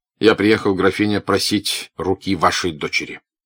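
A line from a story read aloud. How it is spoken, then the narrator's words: Plain. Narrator (Russian): сказал князь Андрей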